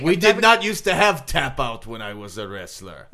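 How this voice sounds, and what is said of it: Put-on Russian accent. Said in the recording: “I am not really Russian... Does this accent sound convincing?... It sounds very convincing.”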